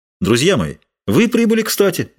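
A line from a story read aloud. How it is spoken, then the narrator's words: Exclaiming. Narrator (Russian): воскликнул Д'Артаньян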